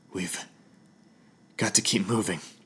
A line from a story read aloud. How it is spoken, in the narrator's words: panted, as soon as I had enough air in my lungs to speak again